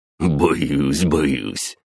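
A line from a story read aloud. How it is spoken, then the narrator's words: Snorting deep voice. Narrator (Russian): фыркнул бас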